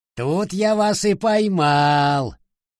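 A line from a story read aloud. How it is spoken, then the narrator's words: Exclaiming. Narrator (Russian): воскликнул Санчо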